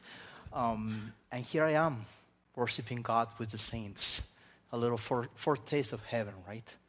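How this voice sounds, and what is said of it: Spanish accent. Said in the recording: “I'm a Spaniard. I grew up in Spain, as you can tell by this accent that I have.”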